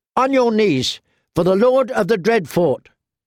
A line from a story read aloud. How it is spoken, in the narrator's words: shouted his squire, a boy no older than Arya